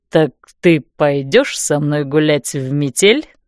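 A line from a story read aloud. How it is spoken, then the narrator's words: Low-voiced question. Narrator (Russian): низким голосом спросил он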